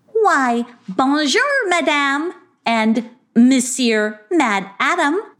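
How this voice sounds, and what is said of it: Light put-on French accent. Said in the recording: “said Sarcasta with a little French accent.”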